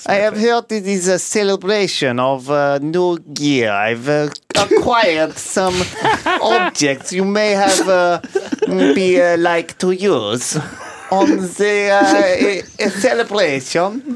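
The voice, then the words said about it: Put-on Russian accent. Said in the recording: “I know you're itching to do your accent. You pretend.”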